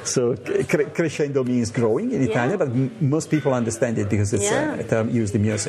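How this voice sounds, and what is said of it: Italian accent. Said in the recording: “I have an obviously Italian roots... that's a bit of an accent.”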